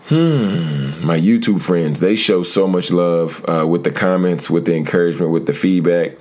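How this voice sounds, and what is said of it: Smooth radio voice. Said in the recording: “my radio voice”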